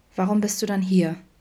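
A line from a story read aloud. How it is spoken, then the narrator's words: Gentle question. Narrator (German): fragte Vincent sanft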